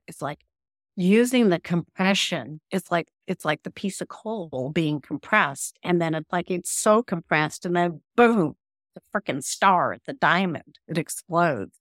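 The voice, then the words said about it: New York accent. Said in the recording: “You talk like a New Yorker.”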